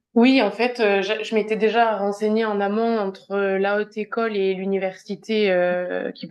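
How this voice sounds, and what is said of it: Regional French accent. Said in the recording (French): “j'adore ton accent, ça me rappelle mes études”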